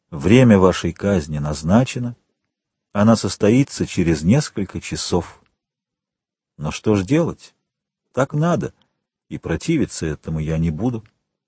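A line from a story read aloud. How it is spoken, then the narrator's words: Calm girl's voice. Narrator (Russian): любимая девушка спокойно говорит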